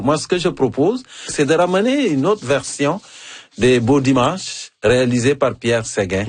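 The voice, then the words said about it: African-accented French. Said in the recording (French): “mon accent africain ... C'est encore plus savoureux avec ton accent africain”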